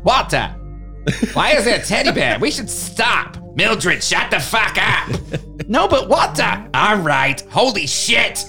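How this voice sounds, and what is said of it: Put-on Boston accent. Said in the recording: “like a Boston accent? ... It's awesome.”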